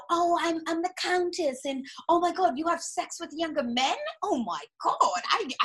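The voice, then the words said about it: Put-on British accent. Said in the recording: “love the British accent ... I just gave her the British accent”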